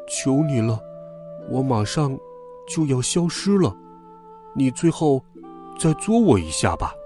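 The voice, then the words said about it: Tiny, weak, feeble voice. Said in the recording (Chinese): “细小又虚弱的声音说”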